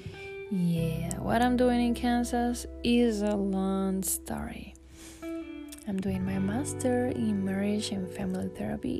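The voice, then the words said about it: Puerto Rican accent. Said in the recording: “I have an accent. From Puerto Rico”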